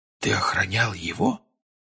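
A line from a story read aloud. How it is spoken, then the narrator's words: Quiet question. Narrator (Russian): тихо спросил Джордж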